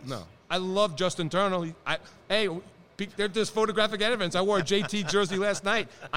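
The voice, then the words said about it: New York accent. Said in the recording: “The accent is still New York.”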